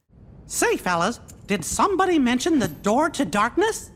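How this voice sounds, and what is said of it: Squeaky cartoon character voice. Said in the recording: “a familiar squeaky voice”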